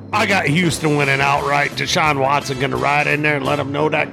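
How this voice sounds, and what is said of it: Acquired regional accent. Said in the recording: “that stupid accent you picked up over the past decade”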